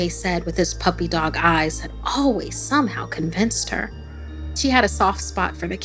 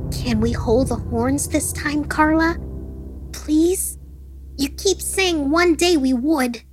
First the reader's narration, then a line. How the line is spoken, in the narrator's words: the boy pleaded